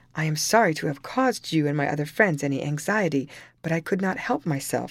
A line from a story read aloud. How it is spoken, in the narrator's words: he answered